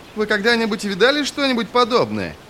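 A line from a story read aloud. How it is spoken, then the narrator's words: Shouting over noise. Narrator (Russian): закричал он сквозь шум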